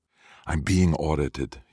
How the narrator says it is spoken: he whispers

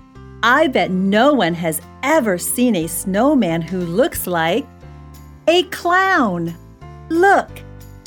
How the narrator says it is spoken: Johnny shouted

